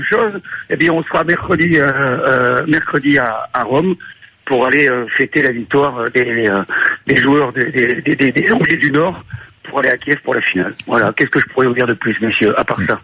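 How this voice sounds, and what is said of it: Pleasant voice with noticeable accent. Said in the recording (French): “très beau grain de voix ... Et très bel accent.”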